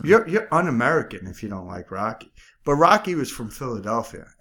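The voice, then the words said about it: New York accent. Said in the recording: “sounds like Rocky Balboa ... my accent's clearly from New York ... I'm Strong Island, baby.”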